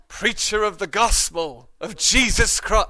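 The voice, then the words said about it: Mock anointed American preacher accent. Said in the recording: “a strange accent. An anointed accent, you know? ... maybe in an American accent”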